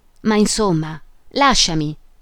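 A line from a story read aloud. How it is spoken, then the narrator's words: Exclamation. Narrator (Italian): esclamò lei ancora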